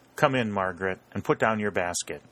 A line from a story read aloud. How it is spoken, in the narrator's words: said in a genial tone